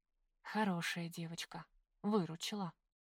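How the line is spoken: Whisper. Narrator (Russian): шептала

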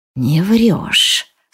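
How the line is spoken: Hissed again. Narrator (Russian): снова зашипел он

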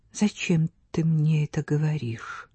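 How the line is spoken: Quiet question. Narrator (Russian): тихо спросила Стефа

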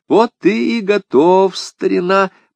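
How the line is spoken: Cooing. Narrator (Russian): проворковал я

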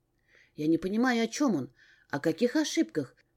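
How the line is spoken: Whisper. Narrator (Russian): прошептала я Эдриану

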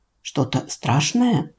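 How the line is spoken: Whispered question. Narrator (Russian): шепотом спросил Андрей

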